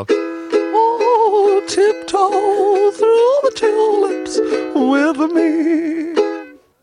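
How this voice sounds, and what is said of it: Singing in a high falsetto. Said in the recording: “falsetto ... a poor version of”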